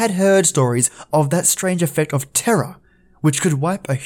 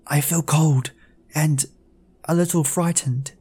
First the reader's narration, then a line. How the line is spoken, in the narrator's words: she whispered